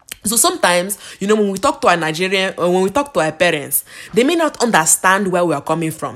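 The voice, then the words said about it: Put-on Nigerian accent. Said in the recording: “Let me try to speak in my Nigerian accent”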